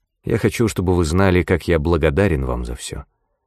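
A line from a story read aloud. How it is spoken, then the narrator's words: Quiet, restrained voice. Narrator (Russian): тихим, сдержанным голосом произнес герцог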